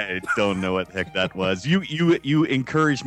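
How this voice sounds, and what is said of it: Usual voice. Nothing is said of it.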